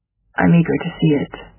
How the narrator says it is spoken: he says

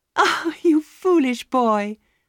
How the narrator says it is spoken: Sybil was laughing and crying at the same time

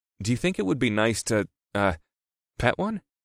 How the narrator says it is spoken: I asked in an innocent tone

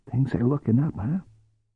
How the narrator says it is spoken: Ku grinned over his shoulder at Cordelia and whispered

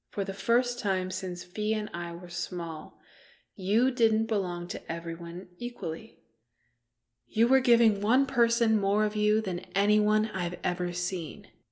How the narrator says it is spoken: he said slowly

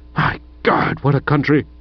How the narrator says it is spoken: said old Stoker with a sort of whistling groan

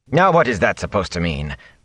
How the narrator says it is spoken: Bran said sharply

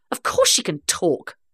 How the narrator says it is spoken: I snapped

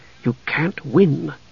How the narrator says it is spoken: Tanis repeated softly

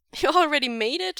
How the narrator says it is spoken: Wei Ying laughs

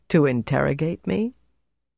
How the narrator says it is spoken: She laughed softly

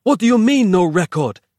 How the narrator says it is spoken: He snapped

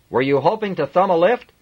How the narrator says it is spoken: he shouted at him

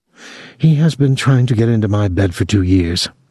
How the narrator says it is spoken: Clotilde said calmly

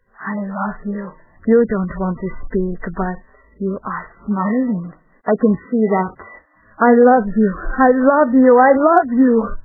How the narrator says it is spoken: With the same sly smile, he brought his dilated eyes to Zinotchka's very face, and whispered

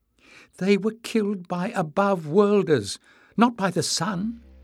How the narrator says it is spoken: Emlis said, his voice trembling

